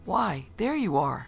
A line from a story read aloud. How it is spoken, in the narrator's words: he cried out gladly and with relief in his voice